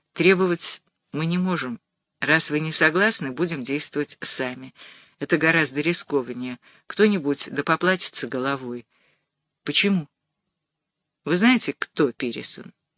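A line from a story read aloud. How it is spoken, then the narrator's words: Quiet. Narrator (Russian): Батурин сказал тихо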